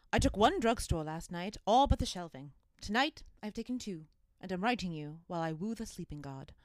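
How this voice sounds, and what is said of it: Old-fashioned society girl voice. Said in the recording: “in your best society girl impression”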